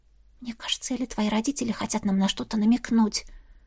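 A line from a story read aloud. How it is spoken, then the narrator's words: Whispered. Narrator (Russian): шепнула она Витани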